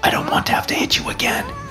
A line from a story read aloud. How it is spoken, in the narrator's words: I whisper in his ear